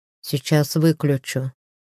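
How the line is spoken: Grumbled. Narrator (Russian): буркнул

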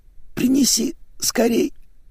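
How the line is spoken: Hoarse rasp. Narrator (Russian): хрипела гостья

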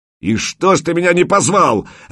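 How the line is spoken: Barked by sergeant. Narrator (Russian): рявкнул старшина

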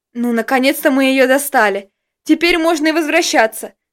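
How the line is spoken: Relieved exhale. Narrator (Russian): С облегчением выдохнул я

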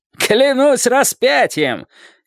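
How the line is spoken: Shout. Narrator (Russian): крикнул

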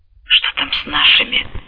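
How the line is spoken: Mumble. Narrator (Russian): пробормотал Катаока

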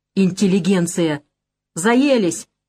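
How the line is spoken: Sudden shout. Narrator (Russian): неожиданно выкрикнул он

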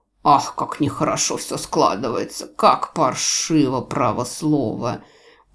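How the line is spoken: Anxious mutter. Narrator (Russian): пробормотал тот встревоженно

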